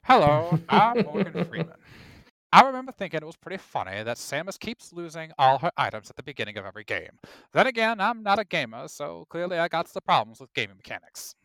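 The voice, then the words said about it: Imitates another person's voice. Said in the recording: “pretty good Morgan Freeman impersonation.”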